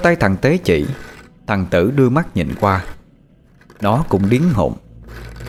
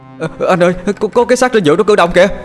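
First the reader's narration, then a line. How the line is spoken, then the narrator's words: Stammering loud cry. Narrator (Vietnamese): thằng Tế lắp bắp la lên thật to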